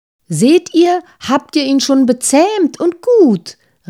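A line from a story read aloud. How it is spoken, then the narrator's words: Very cheerful call. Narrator (German): rief das Sandmännchen sehr vergnügt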